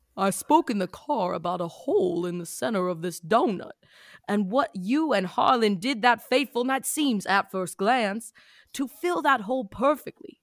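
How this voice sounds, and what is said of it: Put-on character accent, lowered voice. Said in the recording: “I'm gonna do the accent. ... you have to go down okay, an octave.”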